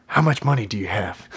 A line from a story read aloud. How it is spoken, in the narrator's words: Sherwood whispered to Henry